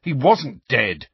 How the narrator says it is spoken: said Harry angrily

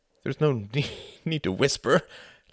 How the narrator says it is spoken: laughed Quentin

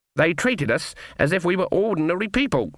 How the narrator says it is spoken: said Granny in a shocked voice

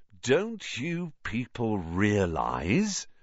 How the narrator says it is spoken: said Lockhart, speaking slowly, as though they were all a bit dim

